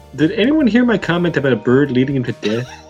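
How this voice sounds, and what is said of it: Fargo-style Minnesota accent. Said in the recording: “we couldn't understand you with your accent... with that accent, everything just seems less threatening... it sounds like the cast of Fargo right now”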